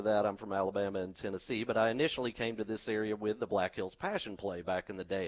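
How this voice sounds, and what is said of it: Slight Southern US twang. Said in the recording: “I have a little bit of a southern twang”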